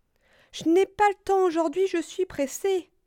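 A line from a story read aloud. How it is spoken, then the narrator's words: Exclaiming. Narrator (French): s'exclama Écureuil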